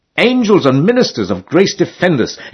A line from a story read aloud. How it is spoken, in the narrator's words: exclaimed George